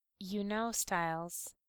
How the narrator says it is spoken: Derek sighs, if someone can sigh when their mental voice has no breath

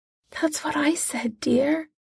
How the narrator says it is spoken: Molly whispers

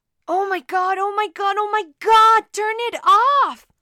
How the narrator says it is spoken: Yuri screamed, burying his face into a pillow

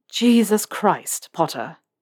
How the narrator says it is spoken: Snape hisses

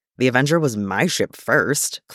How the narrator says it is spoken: Clint grumbles

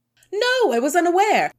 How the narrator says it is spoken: Squawk answered cheerfully

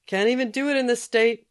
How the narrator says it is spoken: he yelled after her

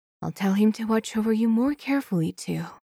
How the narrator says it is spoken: Wei Wuxian whispers

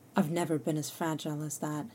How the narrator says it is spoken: Fraser murmurs

